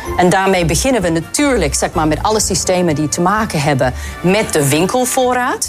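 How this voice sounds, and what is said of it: Slightly thicker accent, voice like Eva Jinek. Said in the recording (Dutch): “twee vrouwen met elkaar in gesprek die exact hetzelfde klonken ... is dit Eva Jinek? ... Ze hebben precies dezelfde stem. Ja, de topvrouw van Albert Heijn heeft een iets dikker accent, maar verder qua stem moet je horen ... Het is gewoon Eva Jinek.”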